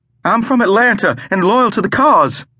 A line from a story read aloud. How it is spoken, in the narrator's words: the portly man exclaimed